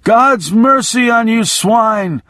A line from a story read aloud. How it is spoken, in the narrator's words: I shouted